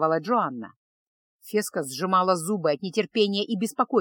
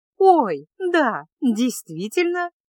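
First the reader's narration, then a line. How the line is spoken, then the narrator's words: Cheerful ringing exclamation. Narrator (Russian): весело и звонко воскликнула принцесса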